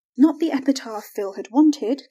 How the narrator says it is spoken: Carrie gasped

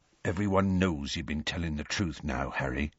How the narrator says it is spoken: said Hagrid softly and unexpectedly

